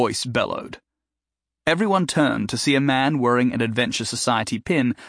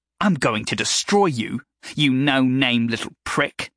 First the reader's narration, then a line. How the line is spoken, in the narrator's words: Thadwick spat